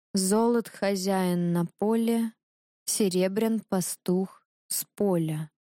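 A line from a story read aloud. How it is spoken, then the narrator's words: Slow repetition. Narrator (Russian): Повторила медленно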